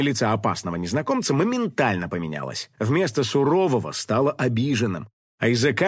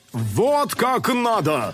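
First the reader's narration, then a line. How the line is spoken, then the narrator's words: Director's yell. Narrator (Russian): Сказал режиссер актеру и завопил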